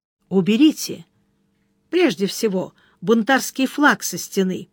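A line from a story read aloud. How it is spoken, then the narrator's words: Gentle advice. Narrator (Russian): мягко посоветовал Сварог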